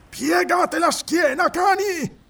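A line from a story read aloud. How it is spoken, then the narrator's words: Roared. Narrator (Italian): ruggì Tito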